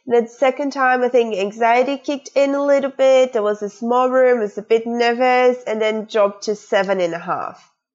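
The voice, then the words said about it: Australian accent. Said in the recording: “you should be able to detect this awesome Australian accent ... It's a very cool accent.”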